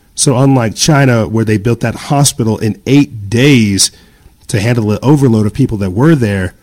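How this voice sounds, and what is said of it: Slightly raspy voice. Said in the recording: “You may hear it in my voice. I'm a little raspy.”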